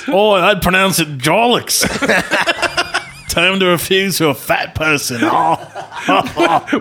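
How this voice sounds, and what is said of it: Put-on Australian accent. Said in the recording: “When did you get so good at Australian accents? ... You're so good at Australian accents. This is amazing.”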